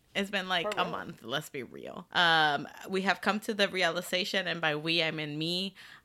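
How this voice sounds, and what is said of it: Hoarse, nearly lost voice. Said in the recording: “my voice is just gone because I might have been screaming over Changbin for the past, like, 2 weeks.”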